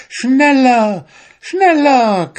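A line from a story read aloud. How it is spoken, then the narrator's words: Shriek. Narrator (German): kreischte sie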